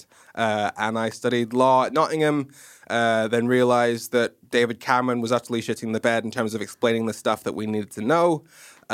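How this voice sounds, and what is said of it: Mixed British and American accent. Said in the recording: “I watched way too much American TV ... hence my messed up accent ... sure that he's not from somewhere like in America? ... I thought you were Scottish, actually.”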